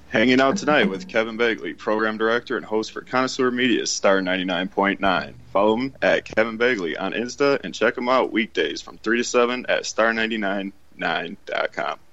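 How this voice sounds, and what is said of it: Polished radio announcer voice. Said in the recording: “How about that radio voice, huh? That was all right.”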